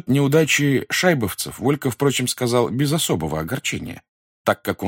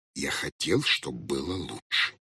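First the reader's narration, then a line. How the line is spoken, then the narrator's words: Embarrassed whispered excuse. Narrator (Russian): также шепотом оправдывался смущенный Хоттабыч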